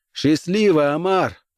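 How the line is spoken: Shouted over engine noise. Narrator (Russian): прокричал сквозь шум мотора

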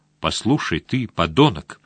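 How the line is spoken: Calm. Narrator (Russian): спокойно проговорил он

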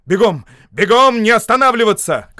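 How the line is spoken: Shouted. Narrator (Russian): крикнул Шарп

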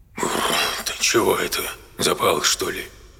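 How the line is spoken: Quiet. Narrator (Russian): тихо произнесла

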